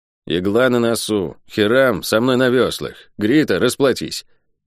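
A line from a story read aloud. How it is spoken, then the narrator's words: Through gritted teeth. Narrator (Russian): У Нейла была привычка цедить слова сквозь зубы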